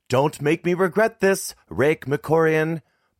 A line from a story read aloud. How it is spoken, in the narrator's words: Mom yelled